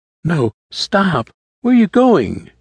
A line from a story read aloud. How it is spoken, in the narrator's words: Haley cried out